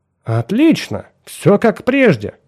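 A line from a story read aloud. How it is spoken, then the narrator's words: Joyful. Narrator (Russian): начал доктор Дэвид Браун радостным тоном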